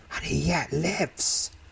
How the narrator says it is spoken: hisses sharply

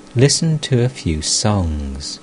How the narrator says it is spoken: In order to relieve her mind of all embarrassment, the Master said tenderly

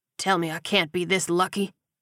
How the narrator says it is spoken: he muttered

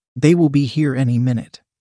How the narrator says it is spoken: Liz said

